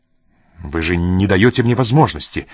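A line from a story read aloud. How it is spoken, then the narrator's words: Sharp reply. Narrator (Russian): резким тоном ответил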